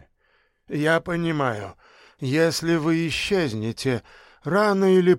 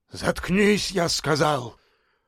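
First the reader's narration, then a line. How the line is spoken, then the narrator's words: Barking shout. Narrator (Russian): рявкнул на него Беспалов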